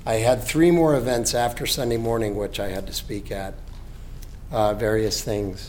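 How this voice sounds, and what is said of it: Hoarse, weakened voice. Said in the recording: “apologize for my voice... I was on my way to having laryngitis”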